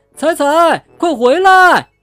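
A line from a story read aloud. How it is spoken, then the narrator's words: Shouting while chasing. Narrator (Chinese): 小猴子他们边追边喊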